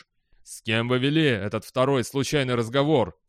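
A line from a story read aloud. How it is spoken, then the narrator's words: Plain. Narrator (Russian): спросил председатель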